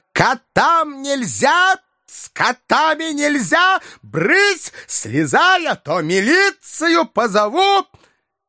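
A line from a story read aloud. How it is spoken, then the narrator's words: Furious trembling shout. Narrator (Russian): Та со злобой, от которой даже тряслась, закричала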